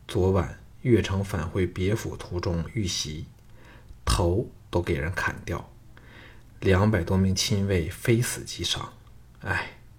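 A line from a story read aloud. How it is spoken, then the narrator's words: Sighing. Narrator (Chinese): 赵牧叹道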